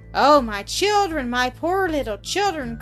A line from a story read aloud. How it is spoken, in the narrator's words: cried the mother, bursting into tears